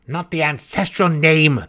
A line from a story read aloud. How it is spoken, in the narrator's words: the counselor growled grudgingly